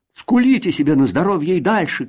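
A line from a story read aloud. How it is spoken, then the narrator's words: Shout through window bars. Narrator (Russian): крикнул Касперль через решетку окна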